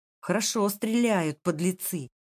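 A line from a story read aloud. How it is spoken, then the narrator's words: Trembling voice. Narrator (Russian): произнес он дрогнувшим голосом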